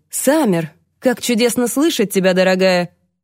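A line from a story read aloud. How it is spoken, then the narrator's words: Warm exclamation. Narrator (Russian): воскликнул он с неподдельным теплом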